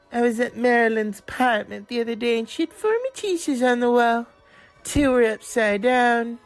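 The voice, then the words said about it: Imitates another person's voice. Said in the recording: “doing a Truman Capote impression ... he sounds like him”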